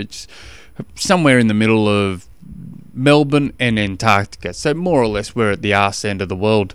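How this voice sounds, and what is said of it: Australian accent. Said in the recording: “my Australian accent ... I kind of like the Australian accent”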